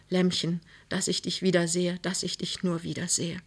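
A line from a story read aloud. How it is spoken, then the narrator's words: Very soft whisper. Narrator (German): flüsterte ganz leise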